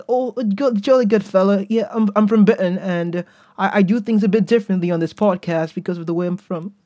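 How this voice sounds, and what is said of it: Weak put-on British accent. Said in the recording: “that's not the best British I've done”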